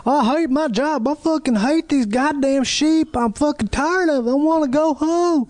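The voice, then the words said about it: Bad put-on Wyoming cowboy accent. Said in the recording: “That is the worst New Zealand accent I've ever heard. ... It's not New Zealand. It's supposed to be Wyoming.”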